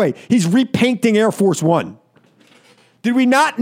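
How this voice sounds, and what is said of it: Usual voice. Nothing is said of it.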